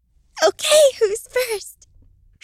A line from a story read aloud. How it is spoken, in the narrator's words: She squealed